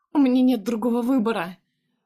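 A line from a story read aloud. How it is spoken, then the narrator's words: Loud sobbing. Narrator (Russian): Всхлипываю я громко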